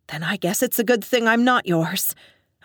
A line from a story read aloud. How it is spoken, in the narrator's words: retorted, a touch breathlessly